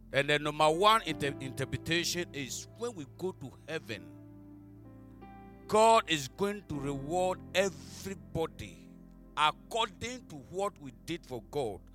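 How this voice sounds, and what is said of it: Speaks with a noticeable accent. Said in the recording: “Don't mind my accent,”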